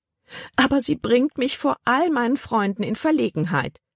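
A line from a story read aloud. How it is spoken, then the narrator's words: Whining. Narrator (German): jammerte Tante Vi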